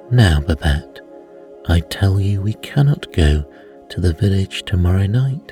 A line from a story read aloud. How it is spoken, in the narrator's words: answered Antone